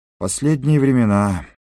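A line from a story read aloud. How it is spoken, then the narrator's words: Host sighing. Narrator (Russian): вздохнул хозяин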